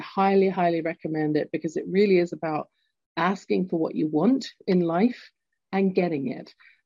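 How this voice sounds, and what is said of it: Lilting English accent. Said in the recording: “my lilting English accent”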